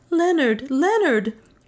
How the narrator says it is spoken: cried Juana in English

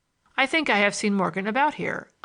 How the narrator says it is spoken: I said

